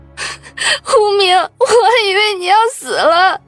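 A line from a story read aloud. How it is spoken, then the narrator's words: Loud crying. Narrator (Chinese): 王笑笑大声哭着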